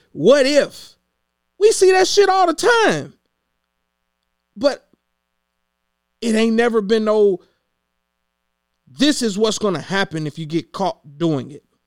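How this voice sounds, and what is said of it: Yelling, agitated loud speech. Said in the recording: “Sorry that I'm yelling. ... I'm getting roused up again.”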